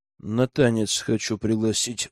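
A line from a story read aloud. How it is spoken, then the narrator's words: Grumbled reply. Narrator (Russian): буркнул в ответ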